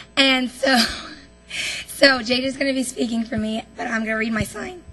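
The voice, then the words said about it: Shaky, nervous voice. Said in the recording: “my voice is a little shaky if you can't tell”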